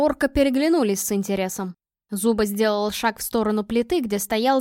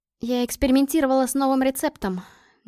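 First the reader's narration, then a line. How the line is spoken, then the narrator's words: Uncertain. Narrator (Russian): неуверенно сказала я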